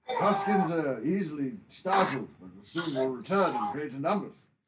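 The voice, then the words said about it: Poor imitation of another person's voice. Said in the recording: “my best Alec Guinness impression, ... which is awful”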